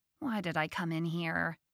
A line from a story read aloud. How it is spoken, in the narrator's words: She mumbled